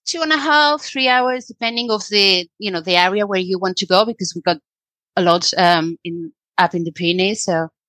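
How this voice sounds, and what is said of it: British English with Spanish accent. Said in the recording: “I'm totally loving your accent changing from the UK to a Spanish set, but your English is so amazing”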